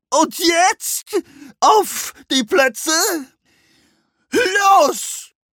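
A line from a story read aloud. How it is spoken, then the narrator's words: Flamingo bellowing. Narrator (German): brüllte der Flamingo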